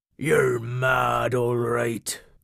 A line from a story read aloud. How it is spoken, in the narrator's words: grumbled Cobby